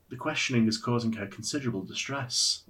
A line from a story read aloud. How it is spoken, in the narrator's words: Ulrich said